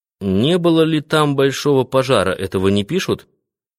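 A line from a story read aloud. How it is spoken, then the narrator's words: Plain. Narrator (Russian): спросил Райский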